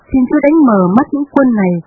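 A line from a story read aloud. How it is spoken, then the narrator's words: Praying. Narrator (Vietnamese): ông Elisa ... cầu xin Đức Chúa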